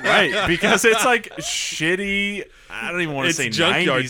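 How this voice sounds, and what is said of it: Usual voice. Nothing is said of it.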